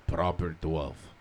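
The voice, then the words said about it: Bad Irish accent sounding Russian. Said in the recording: “Let me hear your Irish accent. The best one you can give me... That was a Russian-Irish baby... That was like a Russian.”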